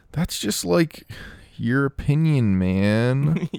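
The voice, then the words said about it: Laid-back stoner movie character voice. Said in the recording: “Was that a good dude impression?... It was... like an uncle at a family reunion doing an impression of a stoner”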